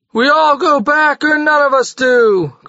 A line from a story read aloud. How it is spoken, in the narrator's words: cried 100 voices